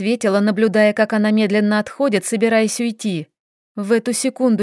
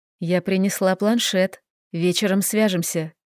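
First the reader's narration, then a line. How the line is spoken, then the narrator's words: Quiet, mother's voice. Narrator (Russian): Моя мама тихо сообщила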